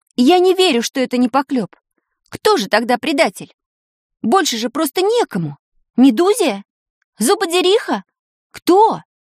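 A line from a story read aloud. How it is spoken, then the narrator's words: Convinced shout. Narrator (Russian): убежденно крикнула Таня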